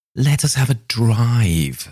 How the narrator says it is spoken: suddenly exclaimed Mrs

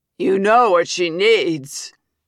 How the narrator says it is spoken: says another voice, trailed by lewd laughter

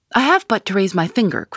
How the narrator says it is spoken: cried McGinty

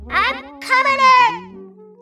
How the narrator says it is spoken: Jeff cursed at it before screaming

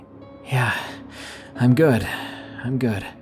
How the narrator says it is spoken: trying my best to catch my breath, and wheezed out a

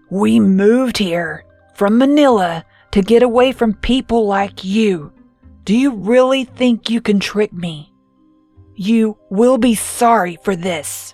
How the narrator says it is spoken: She said in a low, growling voice

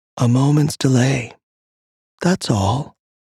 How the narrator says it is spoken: they murmured

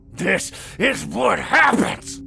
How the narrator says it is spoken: Carl growled and coughed, then started over

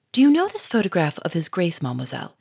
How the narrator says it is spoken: he said quickly

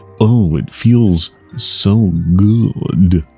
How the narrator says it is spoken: murmurs

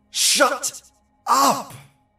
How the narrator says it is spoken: David, who was kind of a hard-ass and the least superstitious of his family, shouted

